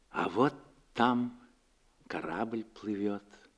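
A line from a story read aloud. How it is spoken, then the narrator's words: Quiet. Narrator (Russian): тихо сказала она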